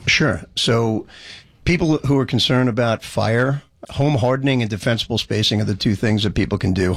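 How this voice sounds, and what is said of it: Strong Boston-like American accent. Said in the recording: “that crazy accent, I thought it was more Boston than Jersey”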